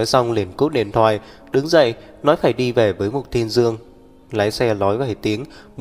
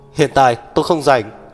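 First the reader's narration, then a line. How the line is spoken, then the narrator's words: Hurried shout. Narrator (Vietnamese): vội la lên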